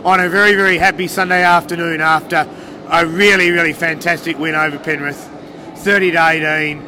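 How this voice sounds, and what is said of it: Stuffy, unwell-sounding voice. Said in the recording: “I'm sounding pretty ordinary. I've got a cold, so I'm struggling. ... if I drop off and blow my nose”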